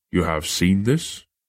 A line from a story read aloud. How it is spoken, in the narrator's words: He chuckled